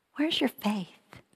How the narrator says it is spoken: kindly asked

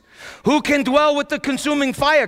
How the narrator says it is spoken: cried the sinners on Mount Zion in Isaiah

